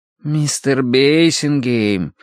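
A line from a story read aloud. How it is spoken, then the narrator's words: Drawn-out drawl. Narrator (Russian): протянул сторож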